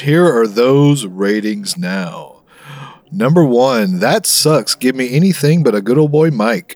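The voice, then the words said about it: Big booming radio announcer voice. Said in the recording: “Are you using your big radio voice? ... This is the biggest voice I've got, fella.”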